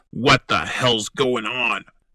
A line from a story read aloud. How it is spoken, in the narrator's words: I shouted